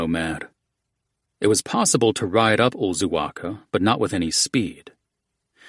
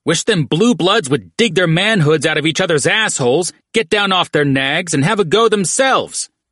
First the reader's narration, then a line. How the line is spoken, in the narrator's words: Batshit shouted down the slope, but the distance swallowed his taunt